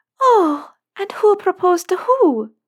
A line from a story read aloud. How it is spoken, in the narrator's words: Luna exclaimed